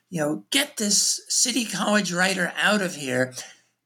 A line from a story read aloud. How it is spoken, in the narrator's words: Bogart got very grouchy, and at one point he just yelled at Lehman